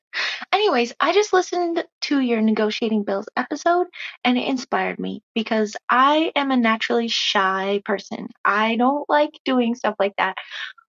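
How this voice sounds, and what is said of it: Slight Minnesota accent. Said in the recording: “from Oklahoma via Minnesota. Can hear the accent probably a little bit.”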